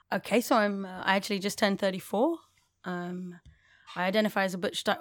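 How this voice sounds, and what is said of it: English accent. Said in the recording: “super conscious of my English accent”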